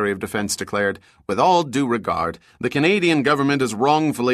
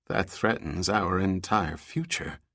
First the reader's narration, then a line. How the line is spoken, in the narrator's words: he said quietly